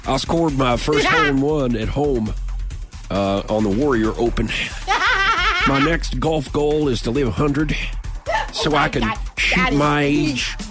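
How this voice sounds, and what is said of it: Imitates another person's voice. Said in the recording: “You just nailed that. That was so good. ... That's the same impersonation I use for Harry. That's one voice, two impersonations.”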